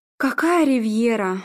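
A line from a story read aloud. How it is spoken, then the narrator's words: Bitter sigh. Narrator (Russian): Арнольд горько вздохнул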